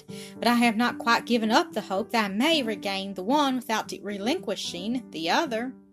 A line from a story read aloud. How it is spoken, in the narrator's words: he sighed